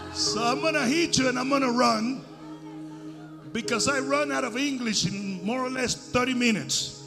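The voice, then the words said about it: Accented non-native English. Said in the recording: “I do know how to preach with a sexy accent”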